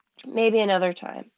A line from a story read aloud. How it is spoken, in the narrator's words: he sighed